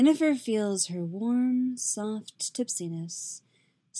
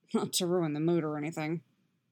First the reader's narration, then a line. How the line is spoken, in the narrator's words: he mutters